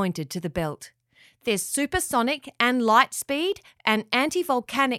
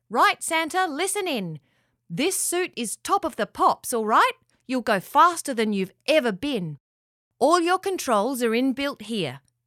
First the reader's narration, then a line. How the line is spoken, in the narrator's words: The leader of the elves called out